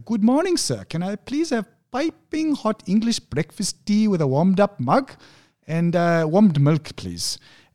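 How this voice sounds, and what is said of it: Put-on accent, convincingly done. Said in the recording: “that accent was spot on.”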